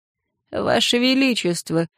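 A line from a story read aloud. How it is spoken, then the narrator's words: Quiet, creaky. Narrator (Russian): проскрипел Гектор негромко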